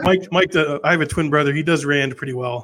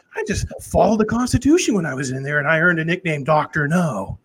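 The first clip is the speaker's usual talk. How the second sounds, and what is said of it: Imitates another person's voice. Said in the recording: “I do a Ron Paul impression.”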